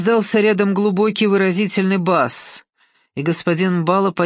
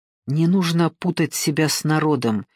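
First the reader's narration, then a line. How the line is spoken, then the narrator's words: Bitter, through gritted teeth. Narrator (Russian): желчно процедила Симона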